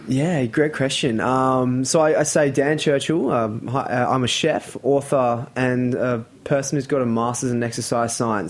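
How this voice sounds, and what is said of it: Australian accent. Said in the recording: “you're from Australia from your accent”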